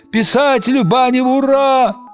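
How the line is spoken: Yell from crowd. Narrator (Russian): Кто-то в толпе заорал

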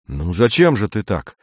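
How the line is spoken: Uncertain. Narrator (Russian): сказал помощник неуверенно

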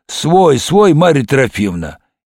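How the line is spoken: Muffled booming voice. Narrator (Russian): дядя Коля прогудел из недр гардероба

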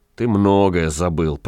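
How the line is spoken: Grumbling wanderer. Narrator (Russian): проворчал странник

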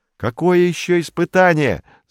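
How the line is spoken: Yelled. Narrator (Russian): заорал он

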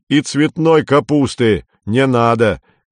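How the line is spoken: Shouting after someone. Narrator (Russian): крикнул Горбовский вслед

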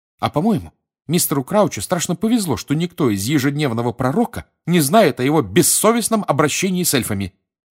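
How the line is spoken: Angry declaration. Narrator (Russian): сердито заявила Гермиона

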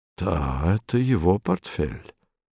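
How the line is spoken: Muttering. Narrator (Russian): пробормотал он

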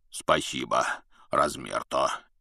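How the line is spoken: Deep bass voice. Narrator (Russian): пробасил Хагрид

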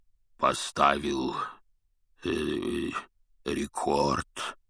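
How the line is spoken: Hoarse low bass. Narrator (Russian): севшим басом произнес он

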